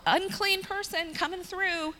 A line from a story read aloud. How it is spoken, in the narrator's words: The people, when a leper would come by, they had to yell